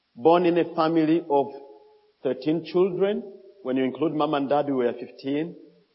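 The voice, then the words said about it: Strong accent, hard to follow. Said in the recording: “some of you are getting trouble with my accent.”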